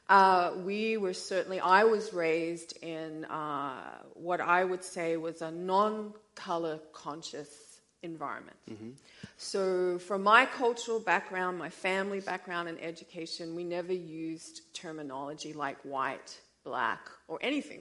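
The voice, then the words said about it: Australian accent. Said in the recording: “So I came from Australia. That's where the accent is from.”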